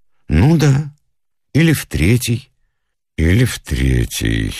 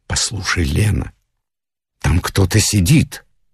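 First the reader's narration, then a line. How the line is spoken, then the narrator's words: Frightened whisper. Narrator (Russian): испуганно зашептал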